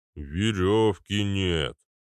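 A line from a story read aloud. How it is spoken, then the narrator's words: Deep bass. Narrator (Russian): пробасил Арнольд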